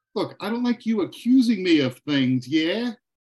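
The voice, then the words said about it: Slips into a put-on accent. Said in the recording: “you're slipping in and out of the accent a little bit ... See, there it is again.”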